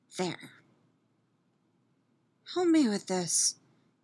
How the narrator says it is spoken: she adds, as softly as possible

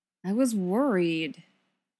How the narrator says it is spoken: he said sullenly

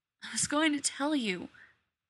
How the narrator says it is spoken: begged

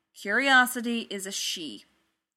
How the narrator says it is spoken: Thor said, and his tone brooked no objections

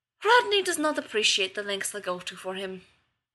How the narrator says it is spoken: Zelenka sighed

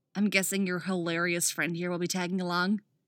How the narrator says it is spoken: Wally grunts

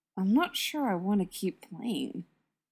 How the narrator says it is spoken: Clint mutters to Tony

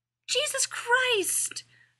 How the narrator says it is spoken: Rodney yelled

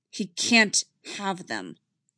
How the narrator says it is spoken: Anakin says firmly

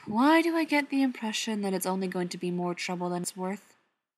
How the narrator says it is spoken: John asked with a sigh

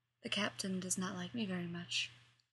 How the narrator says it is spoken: he murmurs

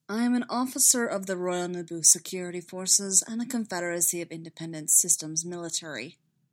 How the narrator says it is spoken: Obi-Wan said

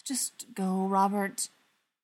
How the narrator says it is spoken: Schechter said with a sigh

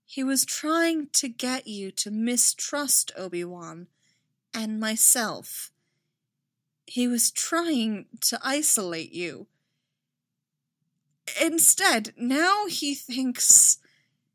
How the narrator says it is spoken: she said slowly

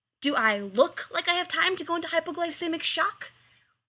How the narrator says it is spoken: Rodney yells

